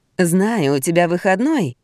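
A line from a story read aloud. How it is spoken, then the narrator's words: Purring woman. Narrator (Russian): промурлыкала моя начальница Рената Логинова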